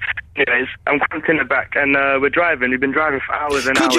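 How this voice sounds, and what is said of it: Usual voice. Nothing is said of it.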